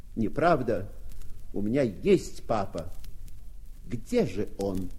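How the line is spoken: Frightened, desperate shout. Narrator (Russian): Побелев как полотно, он, наконец, отважился и крикнул

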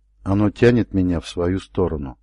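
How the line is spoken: Quiet. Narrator (Russian): сказал он тихо

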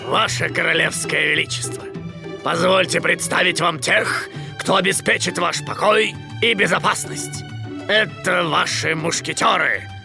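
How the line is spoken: Deep, mock-respectful. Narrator (Russian): Пробасил с наигранным уважением капитан Пит

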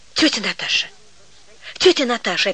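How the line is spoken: Whispering in ear. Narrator (Russian): опять зашептала Ганка в ухо

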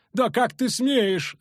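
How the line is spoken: Screaming. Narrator (Russian): завопила Матрона

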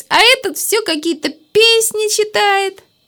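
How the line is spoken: Laughing. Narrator (Russian): Леночка засмеялась

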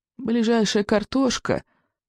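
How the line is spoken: Sad old voice. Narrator (Russian): печально проговорил старый сморчок

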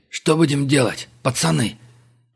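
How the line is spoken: Hoarse, distressed. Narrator (Russian): прохрипел синий от переживаемого Абдулов

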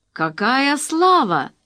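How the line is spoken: Composed exclamation. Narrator (Russian): воскликнул этот дядька, не теряясь

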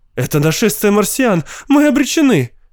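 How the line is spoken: Shrieking woman. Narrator (Russian): визжала миссис Мэккинс

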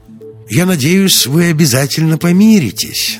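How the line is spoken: Strained smiling tone. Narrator (Russian): натянуто улыбнулся мэр

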